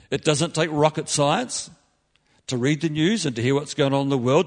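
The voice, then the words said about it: New Zealand accent. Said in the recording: “you can tell from my accent that I come from close to where these guys come from... some friends back in New Zealand”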